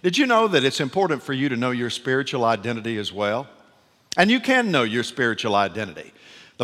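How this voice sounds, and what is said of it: Southern American accent. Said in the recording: “I'm delighted to speak with a Southern accent rather than an English accent”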